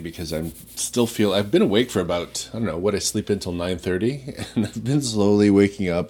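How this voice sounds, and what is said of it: Rattly, just-woken-up voice. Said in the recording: “my voice is a bit rattly”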